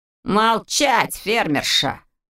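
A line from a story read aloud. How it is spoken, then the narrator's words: Rough shout. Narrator (Russian): грубо прикрикнул он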